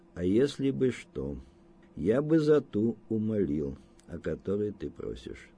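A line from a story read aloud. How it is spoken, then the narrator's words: Quiet. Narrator (Russian): проговорил он тихо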